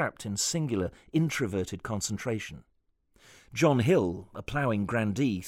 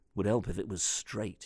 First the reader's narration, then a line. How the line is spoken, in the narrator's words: he muttered